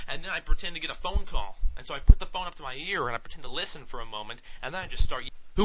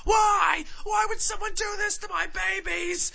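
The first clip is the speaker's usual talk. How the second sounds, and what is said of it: Loud, yelling, mock-hysterical voice. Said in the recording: “I just keep yelling”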